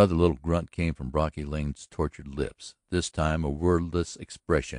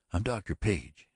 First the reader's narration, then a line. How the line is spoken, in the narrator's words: she said quietly